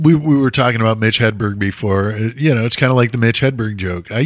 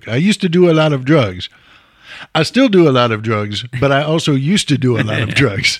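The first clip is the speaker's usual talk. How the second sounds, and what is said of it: Imitates another person's voice. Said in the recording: “That was both a wonderful and slightly terrible impression.”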